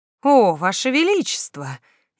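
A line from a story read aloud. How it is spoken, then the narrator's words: Sincere sigh. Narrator (Russian): я искренне вздохнула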